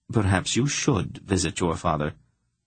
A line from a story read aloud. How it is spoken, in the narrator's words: Polgara said quite calmly